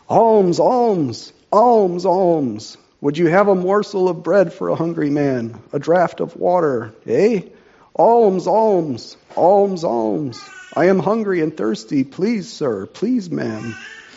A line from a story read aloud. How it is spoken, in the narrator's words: cried with a sullen urgency to the passers-by